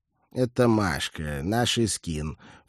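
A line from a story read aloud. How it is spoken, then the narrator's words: Strange, brash voice. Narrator (Russian): все тем же чужим развязным голосом сообщил Дэн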